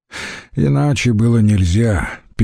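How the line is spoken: Sad. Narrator (Russian): печально сказал он Антонию

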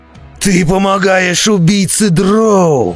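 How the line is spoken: Roar. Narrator (Russian): взревел он

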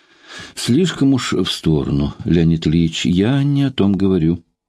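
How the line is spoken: Gentle objection. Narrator (Russian): мягко возразила Ксения

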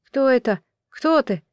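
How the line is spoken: Sleepy voice asking. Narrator (Russian): сонным голосом спросил он

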